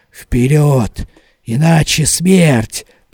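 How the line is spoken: Whisper. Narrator (Russian): прошептали губы

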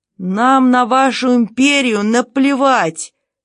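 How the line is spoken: Shouted. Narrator (Russian): крикнул другой солдат

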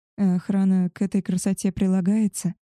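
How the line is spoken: Quiet question. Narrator (Russian): тихо спросила

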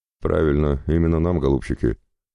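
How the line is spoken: Grim resigned summary. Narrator (Russian): мрачно резюмировал папа

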